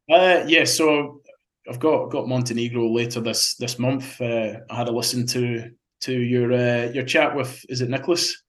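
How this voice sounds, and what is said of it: Speaks with a noticeable accent. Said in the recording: “You understand my accent ... we like your accent. It's nice.”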